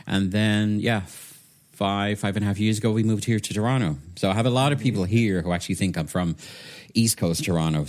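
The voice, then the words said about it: Hybrid British and soft Irish accent. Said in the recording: “my accent is kind of a weird hybrid between UK and soft Irish”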